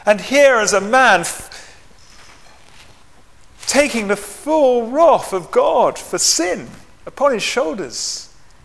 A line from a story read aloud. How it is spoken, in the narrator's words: he cried out to him